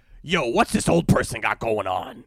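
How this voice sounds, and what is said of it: Imitates another person's voice, badly. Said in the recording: “my Pete impression. That was very bad. That wasn't good... it wasn't very good.”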